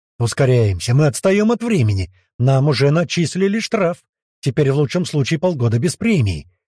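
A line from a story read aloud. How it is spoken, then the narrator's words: Shouting. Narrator (Russian): прокричал маг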